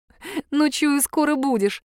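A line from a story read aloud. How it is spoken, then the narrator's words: Giggling. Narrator (Russian): хихикнула я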